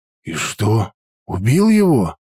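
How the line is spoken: Frightened question. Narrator (Russian): испуганно спросил я

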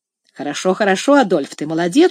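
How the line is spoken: Casual joking tone. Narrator (Russian): сказал Сен-Клер своим обычным, небрежно шутливым тоном

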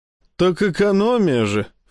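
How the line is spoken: Snorting. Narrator (Russian): фыркнул я

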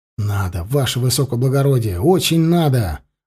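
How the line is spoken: Breathless exhale. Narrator (Russian): выдохнул Алексей

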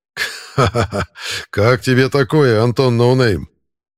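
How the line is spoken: Laughing. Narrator (Russian): Засмеялся он

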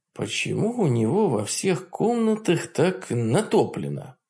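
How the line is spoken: Muttering, biting lip. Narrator (Russian): пробормотал я, кусая нижнюю губу

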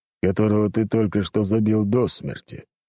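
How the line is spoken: Deep bass voice. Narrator (Russian): пробасил тот

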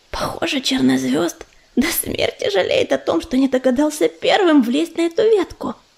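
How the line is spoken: Whisper into ear. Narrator (Russian): прошептал Уголек на ухо Белке

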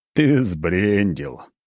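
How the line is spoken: Through clenched teeth. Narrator (Russian): процедил сквозь зубы главный стражник

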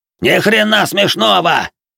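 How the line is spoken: Roaring. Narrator (Russian): взревел лысый

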